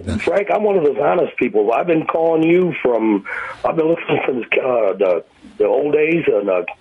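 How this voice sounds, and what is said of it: Slightly hoarse voice. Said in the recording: “My voice is a little hoarse today.”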